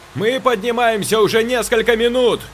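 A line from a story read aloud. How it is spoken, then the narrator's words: Shouting. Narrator (Russian): кричал Саша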